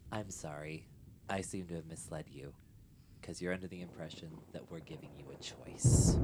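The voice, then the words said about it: Serious, stern character voice. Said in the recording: “serious voice comes out ... This is more serious.”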